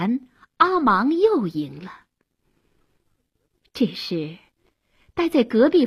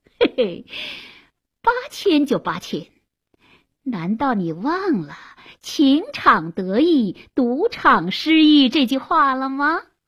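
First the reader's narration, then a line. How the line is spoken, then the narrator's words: Laughing, strange mocking voice. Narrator (Chinese): 阿芒笑了，怪声怪气地说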